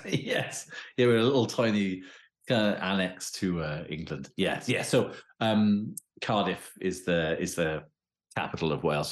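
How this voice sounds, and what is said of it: Welsh accent. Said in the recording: “as you can tell from my accent, I'm sure. Yeah, so I'm based in Wales.”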